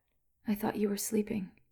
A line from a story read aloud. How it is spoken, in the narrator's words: she said, half a whisper